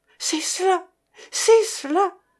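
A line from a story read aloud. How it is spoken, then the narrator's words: Feverish stammer. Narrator (French): balbutia Madame d'Estol enfiévrée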